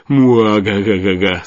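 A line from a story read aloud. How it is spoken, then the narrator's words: Booming sinister laughter. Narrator (Russian): с раскатами мрачного хохота появился Деменко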